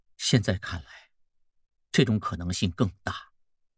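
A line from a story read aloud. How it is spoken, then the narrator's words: Heavy sigh. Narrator (Chinese): 孟梅长叹一口气说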